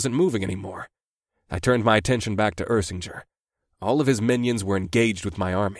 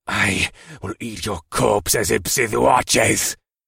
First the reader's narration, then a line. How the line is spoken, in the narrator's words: Ursinger spat